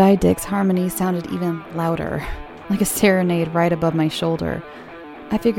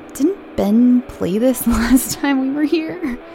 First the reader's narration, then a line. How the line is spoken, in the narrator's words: let out a drunken chuckle